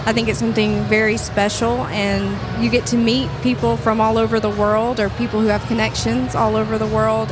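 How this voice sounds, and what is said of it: American accent. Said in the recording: “I was born and raised here in the U.S., I'm sure you can tell by my accent.”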